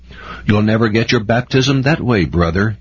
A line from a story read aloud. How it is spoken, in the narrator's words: said sharply, with emphasis